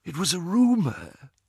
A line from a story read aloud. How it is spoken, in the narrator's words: whispered Ollivander